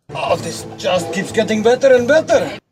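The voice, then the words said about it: Bad Russian accent. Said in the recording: “The Russian doing, I think, a bad accent.”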